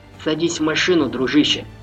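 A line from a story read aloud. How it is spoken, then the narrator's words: Plain. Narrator (Russian): сказал Джахар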